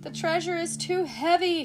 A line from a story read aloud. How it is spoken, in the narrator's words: Skiff cried